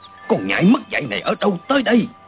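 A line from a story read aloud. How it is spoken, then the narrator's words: Shout. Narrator (Vietnamese): Y quát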